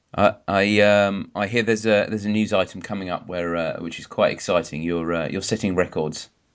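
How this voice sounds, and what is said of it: Husky voice from sore throat. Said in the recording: “I've got a little bit of a sore throat, so maybe I'm sounding more husky”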